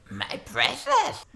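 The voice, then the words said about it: Gollum impression. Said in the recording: “your Gollum impression”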